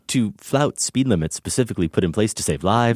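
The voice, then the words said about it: Put-on English accent, slipping. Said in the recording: “I pretty much abandon the English accent ... you abandon it about three quarters ... Italian”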